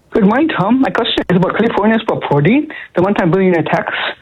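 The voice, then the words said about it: Accented, very rapid speech. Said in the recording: “your accent is making it hard for me to understand you because you're speaking very rapidly”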